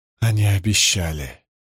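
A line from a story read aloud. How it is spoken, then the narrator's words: Muttering. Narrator (Russian): пробормотала она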